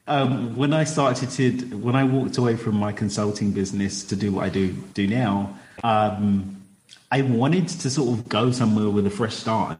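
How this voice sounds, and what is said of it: Speaks with a distinctive accent. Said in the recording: “we could just sit here and listen to your accent all day ... it's the accent”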